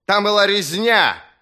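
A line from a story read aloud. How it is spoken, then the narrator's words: Roar. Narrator (Russian): взревел Берр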